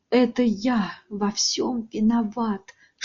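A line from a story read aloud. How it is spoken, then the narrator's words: Whispering. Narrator (Russian): шептал он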